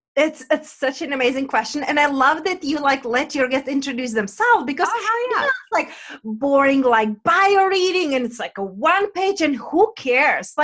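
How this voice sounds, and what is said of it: Czech accent. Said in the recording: “my accent is from Czech Republic”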